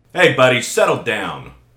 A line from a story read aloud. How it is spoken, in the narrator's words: snapped the guard